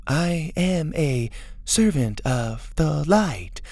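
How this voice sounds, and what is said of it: Clipped Teely-style impression. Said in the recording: “her best Tea Lee impression ... in a clip tone ... That is how Mora speaks.”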